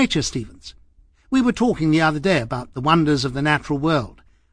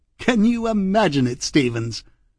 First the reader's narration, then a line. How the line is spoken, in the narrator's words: laughed again